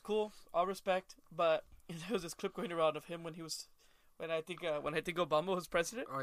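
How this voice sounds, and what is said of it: Usual voice. Nothing is said of it.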